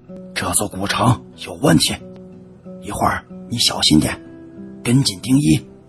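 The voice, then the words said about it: Quiet, hushed speech. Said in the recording (Chinese): “伏在我的耳边，小声的说”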